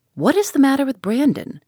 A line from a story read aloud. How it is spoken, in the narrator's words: said Sir John